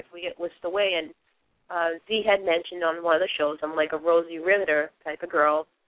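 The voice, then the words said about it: Boston accent. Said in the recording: “my Boston accent ... it's authentic and you know that it's real ... as you can hear me speak, I really do have the Boston accent”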